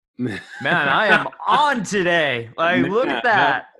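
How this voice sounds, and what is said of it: Imitates another person's voice. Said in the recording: “That was a great Joe Biden impersonation.”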